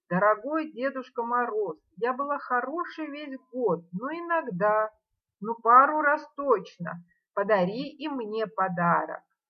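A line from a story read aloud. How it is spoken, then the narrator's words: Shouting through window. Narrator (Russian): Блондинка крикнула ему в открытое окно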